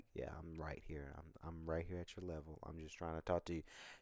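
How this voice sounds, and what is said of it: Nice, calm voice. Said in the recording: “I talk like this, right? I talk at a nice, calm voice.”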